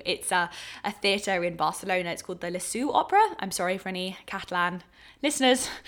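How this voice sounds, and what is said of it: English accent. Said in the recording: “My English accent butchers anything as lyrical as that”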